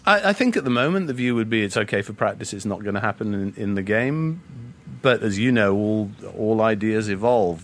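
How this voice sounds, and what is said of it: Non-American accent. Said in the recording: “Don't be fooled by his accent. He grew up in Kenya, Hong Kong, and Wales”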